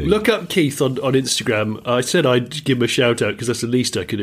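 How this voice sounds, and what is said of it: Hoarse, strained voice. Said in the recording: “I've laughed a little bit too much. I'm feeling a little hoarse now ... I've got a bit of a throat on”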